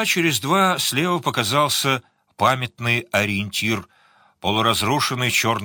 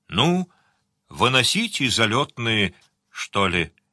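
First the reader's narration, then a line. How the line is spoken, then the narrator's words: Quiet. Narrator (Russian): Сварог тихонько сказал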